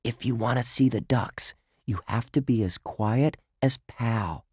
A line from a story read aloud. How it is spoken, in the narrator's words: he whispered